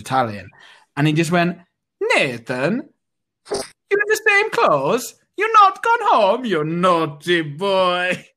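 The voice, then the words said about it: Bad put-on Italian accent. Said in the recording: “Awful Italian accent.”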